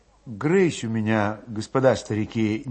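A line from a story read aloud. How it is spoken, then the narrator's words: Indistinct whisper. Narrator (Russian): невнятно шептал Федот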